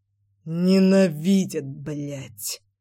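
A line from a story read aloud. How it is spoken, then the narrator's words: Furious words through gritted teeth. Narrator (Russian): процедил Нагашов с нескрываемой яростью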